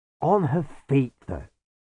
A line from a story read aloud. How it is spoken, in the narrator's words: sighed Igor